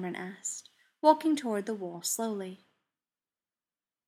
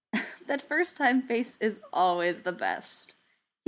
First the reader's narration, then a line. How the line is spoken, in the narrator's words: he said with a chuckle